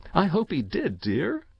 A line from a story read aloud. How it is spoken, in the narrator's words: she said again with a laugh, but rather bitter